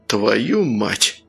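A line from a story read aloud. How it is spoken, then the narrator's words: Breathy exhale. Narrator (Russian): выдохнул Сергей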